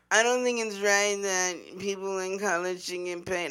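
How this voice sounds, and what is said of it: Imitates another person's voice. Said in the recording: “That was a good Tim Tebow impression.”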